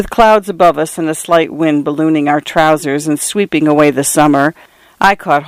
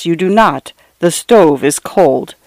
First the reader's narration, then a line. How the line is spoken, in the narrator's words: she replied in a low, flat voice